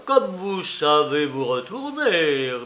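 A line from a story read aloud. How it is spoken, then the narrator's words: Sneering laugh. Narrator (French): ricana Porfir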